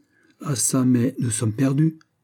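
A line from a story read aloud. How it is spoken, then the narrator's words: Plain. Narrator (French): dit-il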